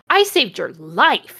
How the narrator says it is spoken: he yelled angrily

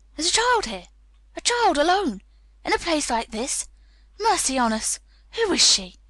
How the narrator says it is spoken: he cried out

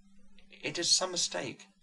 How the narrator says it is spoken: murmured madame

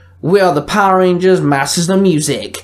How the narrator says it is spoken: the Aqua Ranger barked

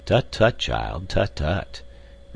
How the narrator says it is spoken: responded Professor Porter in a kindly and indulgent tone

